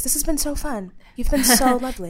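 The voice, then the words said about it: Fake NPR radio-host voice. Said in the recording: “my fake NPR voice”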